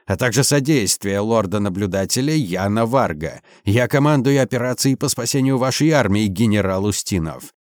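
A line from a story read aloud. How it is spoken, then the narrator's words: Barked order. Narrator (Russian): рявкнул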